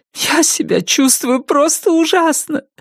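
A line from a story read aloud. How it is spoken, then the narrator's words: Sobbing. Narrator (Russian): рыдала Салли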